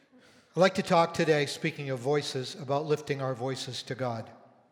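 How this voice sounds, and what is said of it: Hoarse, croaky voice. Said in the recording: “Pardon my hoarse voice this morning... just kind of picked up a frog in my throat”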